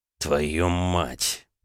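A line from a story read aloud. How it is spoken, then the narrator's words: Muttered through teeth. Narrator (Russian): процедил Дерешев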